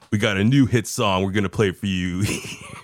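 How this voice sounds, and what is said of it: Radio announcer voice. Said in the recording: “in your best radio voice ... My best radio ... I should try to process my voice, make it sound a little better”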